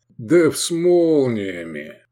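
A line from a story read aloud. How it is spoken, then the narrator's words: Mocking drawl. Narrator (Russian): издевательски протянул блондин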